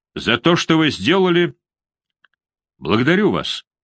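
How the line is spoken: Calm. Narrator (Russian): спокойно сказал Филипп Август

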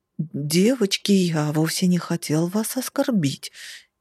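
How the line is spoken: Frightened man babbling. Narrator (Russian): испуганно залепетал мужчина

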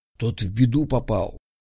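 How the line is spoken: Whisper. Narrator (Russian): шепотом сказал Данька

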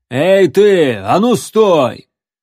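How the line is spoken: Menacing shout. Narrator (Russian): Джон грозно закричал

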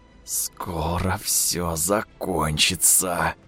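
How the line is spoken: Creaky, exhausted inner voice. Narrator (Russian): проскрипел перегретый от жаркой битвы мозг

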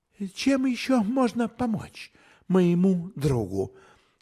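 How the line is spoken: Sigh. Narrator (Russian): Фрейд вздохнул

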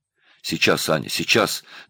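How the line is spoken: Hurried. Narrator (Russian): торопливо сказал Павел

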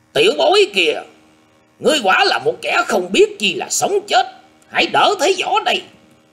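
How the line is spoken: Harsh loud shout. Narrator (Vietnamese): Bắc Kỳ Ngôn gằn giọng quát to lên một lượt nói

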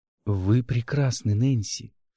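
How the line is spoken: Intimate whisper. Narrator (Russian): шептал, заставляя уши краснеть

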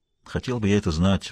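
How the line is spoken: Sighed. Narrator (Russian): вздохнул Хэммонд

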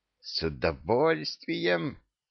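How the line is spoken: Hiss. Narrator (Russian): прошипела Жасмин

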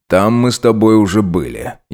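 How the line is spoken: Gloomy interruption. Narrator (Russian): еще более мрачно перебил старший лейтенант

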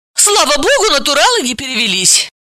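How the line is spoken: Glad. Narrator (Russian): порадовалась Галина

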